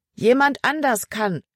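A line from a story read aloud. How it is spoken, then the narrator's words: Called back. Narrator (German): rief Emma zurück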